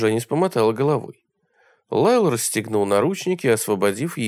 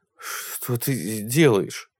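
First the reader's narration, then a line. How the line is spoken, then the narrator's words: Muttered. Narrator (Russian): пробормотал он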